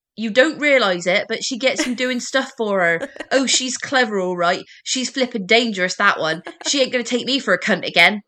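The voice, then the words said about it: Good put-on Bristol accent. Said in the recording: “Rose West has the most Bristol accent you have ever heard ... That's a Bristol accent. ... That was pretty good.”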